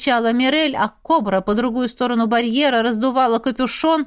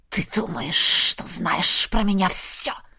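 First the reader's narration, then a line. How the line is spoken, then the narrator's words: Hissing. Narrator (Russian): шипела Наиль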